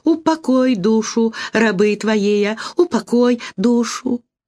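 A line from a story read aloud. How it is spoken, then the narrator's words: Boy's plaintive singsong. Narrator (Russian): Мальчик начал припевать жалобным голоском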